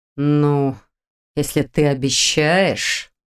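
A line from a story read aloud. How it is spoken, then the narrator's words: Drawl. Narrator (Russian): протянул Долгов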